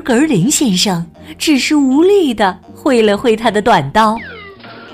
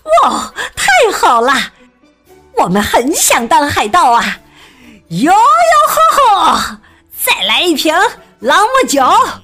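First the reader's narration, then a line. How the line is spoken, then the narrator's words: Loud. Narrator (Chinese): 格林太太大声说道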